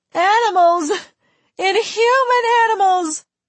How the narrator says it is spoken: Fan was shouting

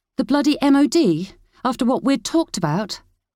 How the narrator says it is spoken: she said angrily

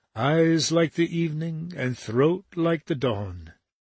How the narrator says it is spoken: Then he sang softly, just above his breath

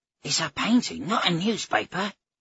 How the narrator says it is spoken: Ogier said, his voice cracking with alarm

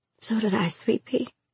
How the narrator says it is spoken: she whispered

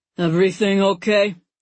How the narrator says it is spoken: He asks, his voice as apathetic as if he'd asked if I wanted fries with my meal

